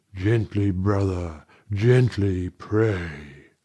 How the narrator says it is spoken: with its all-obliterated tongue it murmured

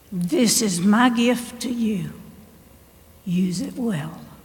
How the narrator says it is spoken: in that still, small voice, he says

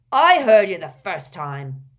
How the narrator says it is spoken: snapped Gaunt

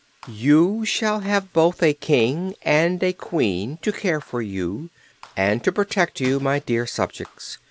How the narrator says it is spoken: she said in a sweet voice, while her face glowed with happiness

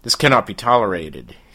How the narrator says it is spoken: he says coldly

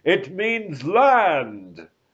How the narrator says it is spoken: shouted the sailors

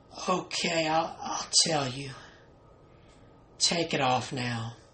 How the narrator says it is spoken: In a croaky, weak voice, his wife replied

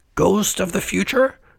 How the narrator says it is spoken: cried Scrooge

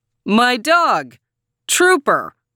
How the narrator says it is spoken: yelled

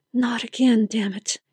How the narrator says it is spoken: she muttered under her breath

